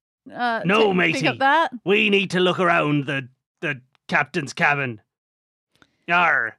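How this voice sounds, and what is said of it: Stereotypical pirate voice. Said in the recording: “you're going to do this in a pirate voice.”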